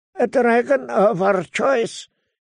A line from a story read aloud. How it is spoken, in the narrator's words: he said in a thin, hard voice